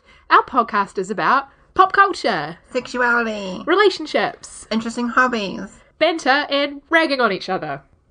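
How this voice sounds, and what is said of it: New Zealand accent. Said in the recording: “you can appreciate our cute New Zealand accents.”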